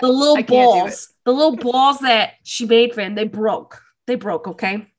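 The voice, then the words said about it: Put-on New Jersey accent. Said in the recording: “In a Jersey accent.”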